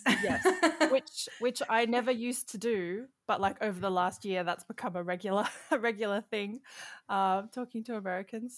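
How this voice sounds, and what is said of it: Australian accent. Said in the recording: “you grew up in Sydney. So you've always lived in Australia ... accent ... everyone's like, oh, the accent.”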